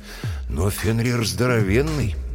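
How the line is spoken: Sighing. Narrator (Russian): Брэм вздохнул

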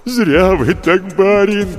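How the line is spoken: Groaning. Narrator (Russian): простонал Егорыч

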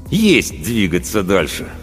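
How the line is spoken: Composed, through gritted teeth. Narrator (Russian): Паводников взял себя в руки и процедил

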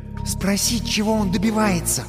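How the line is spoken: Whispered advice. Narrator (Russian): шепотом посоветовала Халява

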